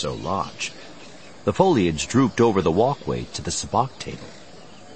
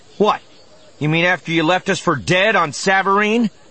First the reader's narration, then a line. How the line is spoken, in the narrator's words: Han snapped